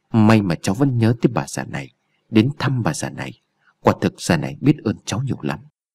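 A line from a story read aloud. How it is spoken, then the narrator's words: Old woman's cold laugh. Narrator (Vietnamese): Bà Bảy cười lạnh lùng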